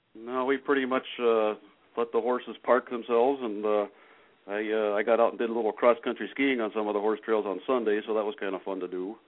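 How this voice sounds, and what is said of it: Minnesota accent. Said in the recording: “I love the Minnesota accent. I think it's fantastic.”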